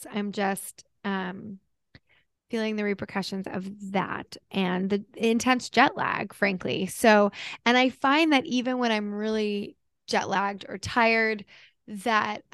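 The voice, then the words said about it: Slightly hoarse voice. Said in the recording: “I'm probably a little bit hoarse.”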